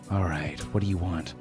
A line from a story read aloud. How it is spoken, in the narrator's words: I sighed